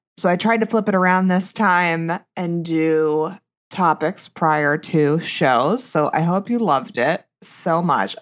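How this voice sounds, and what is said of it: Heavy vocal fry. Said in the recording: “my vocal fry is too poppin', literally too poppin' ... my sexy Lindsay Lohan voice”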